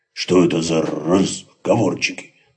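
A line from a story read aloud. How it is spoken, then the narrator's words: Grumbling. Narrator (Russian): проворчал Максимилиан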